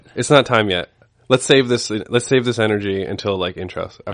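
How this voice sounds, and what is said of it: Stuffy, congested voice. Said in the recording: “You sound a little stuffy.”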